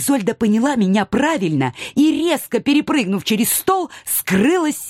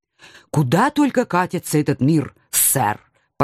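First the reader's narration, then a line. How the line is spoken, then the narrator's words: Obedient chiming in. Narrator (Russian): послушно подпела я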